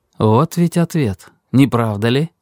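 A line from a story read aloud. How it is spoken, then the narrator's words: Quiet. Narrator (Russian): сказал он тихо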